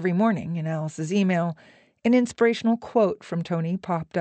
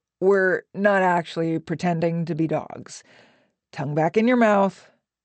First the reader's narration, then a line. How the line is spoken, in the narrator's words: Tony called from his chair, his voice weary